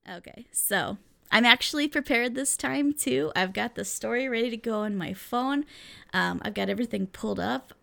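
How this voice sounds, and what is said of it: Sick-sounding, altered voice. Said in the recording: “My voice is completely different this week ... now I'm in the process of recovering from being sick”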